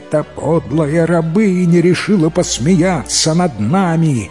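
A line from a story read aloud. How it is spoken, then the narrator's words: Roaring rich man. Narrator (Russian): взревел богач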